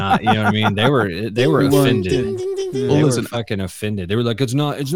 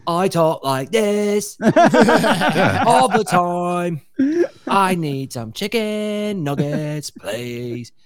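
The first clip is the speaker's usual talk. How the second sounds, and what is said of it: Valley Girl mixed with bad British. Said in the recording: “it's not British ... it fucking sounds like he's ... That's what that accent is. It's like fucking Valley Girl and shitty British.”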